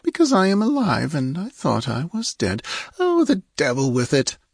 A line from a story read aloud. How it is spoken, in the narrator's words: she murmured